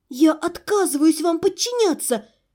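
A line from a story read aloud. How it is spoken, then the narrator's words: Desperate angry shout. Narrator (Russian): С решительным, озлобленным отчаянием выкрикнула я в ответ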